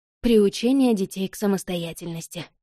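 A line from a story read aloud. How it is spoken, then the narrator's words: Sighing. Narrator (Russian): вздохнула Рози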